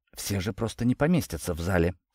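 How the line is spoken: Quiet stunned whisper. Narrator (Russian): тихо прошептал я, с потрясением

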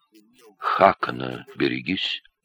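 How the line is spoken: Quiet. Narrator (Russian): негромко сказал ему Тьельвар

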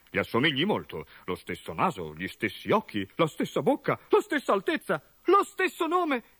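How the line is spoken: Mother's exclamation. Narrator (Italian): esclamò la madre di Gorgo

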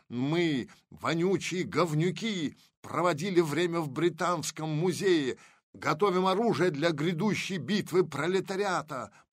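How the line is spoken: Shouted. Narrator (Russian): прокричал Мавр

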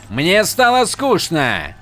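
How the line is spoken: Shouted reply. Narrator (Russian): прокричал Садиас в ответ

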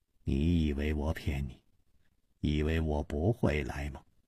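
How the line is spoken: Mumbling. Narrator (Chinese): 梁妈嘟囔着说

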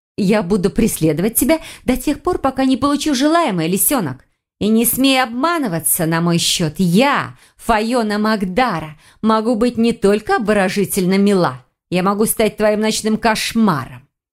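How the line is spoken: Witch's hiss. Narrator (Russian): прошипела ведьма

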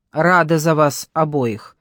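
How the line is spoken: Snorting. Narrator (Russian): фыркнула Надежда

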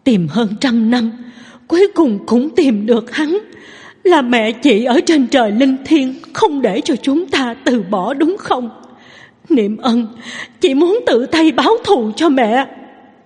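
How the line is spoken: Tearful sobbing. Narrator (Vietnamese): Nước mắt Lâm Niệm Từ cuồn cuộn tuôn rơi, nức nở nói

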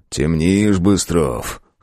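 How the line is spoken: Wry snort. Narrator (Russian): хмыкнул Камагин

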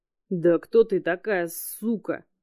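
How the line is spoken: Hissing. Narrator (Russian): прошипел сидящий на столу Макой

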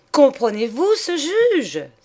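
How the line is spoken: Exclaimed. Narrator (French): s'écria-t-elle

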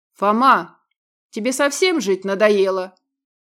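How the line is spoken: Angry bark. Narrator (Russian): Рявкнул охранник

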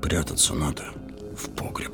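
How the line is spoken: Frightened shopkeeper mumbling. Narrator (Russian): бормотал бледными губами лавочник, Регаларов сосед

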